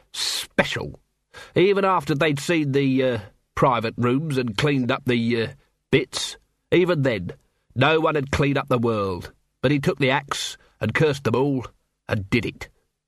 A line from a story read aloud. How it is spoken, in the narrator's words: He spat the word